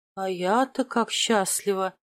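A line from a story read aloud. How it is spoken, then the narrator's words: Gloomy drawl. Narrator (Russian): протянула в ответ мрачно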